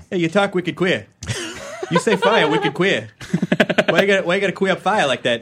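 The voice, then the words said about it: Put-on Boston accent. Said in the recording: “So I can insult people with a Boston accent ... That's good ... It's not bad”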